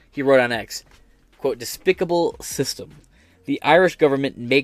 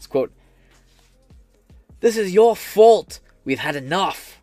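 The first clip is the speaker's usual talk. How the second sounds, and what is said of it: Weak put-on accent. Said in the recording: “I don't have a good accent.”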